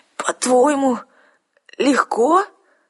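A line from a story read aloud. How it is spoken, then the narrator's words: Hoarse rasp. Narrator (Russian): прохрипела я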